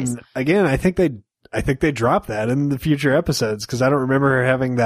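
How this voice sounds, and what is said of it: Usual voice. Nothing is said of it.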